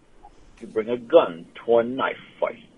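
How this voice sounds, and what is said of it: Sean Connery impression. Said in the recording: “I fucking heard Connery in that. That was amazing.”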